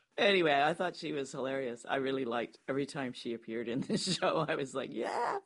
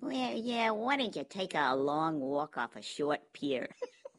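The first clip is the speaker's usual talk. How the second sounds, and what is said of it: Whiny, cartoonish character voice. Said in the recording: “Whiny and a bit cartoonish ... That was a remarkable impersonation.”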